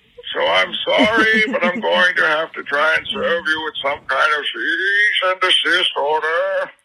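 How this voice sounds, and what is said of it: Bane supervillain character voice. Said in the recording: “I, Bane. ... I've heard you've done some impersonations of me ... Do the voice! Of course I'm gonna do the voice. It's my fucking voice.”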